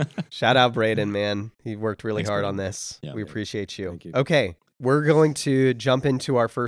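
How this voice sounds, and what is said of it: Usual voice. Nothing is said of it.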